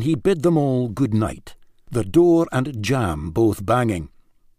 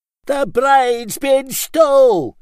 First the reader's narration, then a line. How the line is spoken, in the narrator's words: he bellowed